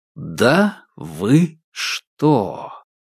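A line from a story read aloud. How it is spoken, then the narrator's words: Slow drawl, each word separate. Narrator (Russian): протянул Корсаков, выговаривая каждое слово будто бы отдельно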